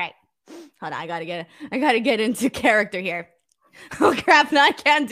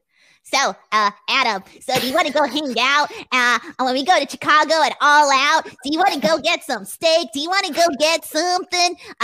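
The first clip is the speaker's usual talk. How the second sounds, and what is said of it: Imitates another person's voice. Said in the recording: “my Sean Ross Sapp accent”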